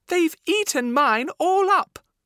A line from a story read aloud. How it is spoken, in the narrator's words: cried Baby Bear